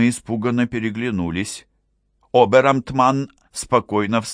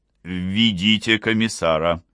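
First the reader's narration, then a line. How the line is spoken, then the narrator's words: Firm command. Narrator (Russian): велел он твердым голосом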